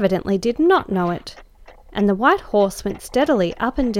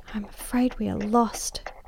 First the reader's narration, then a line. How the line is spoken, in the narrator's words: she whispered in my ear